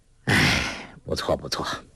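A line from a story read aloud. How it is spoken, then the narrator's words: Sighing. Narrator (Chinese): 洪七公叹了口气说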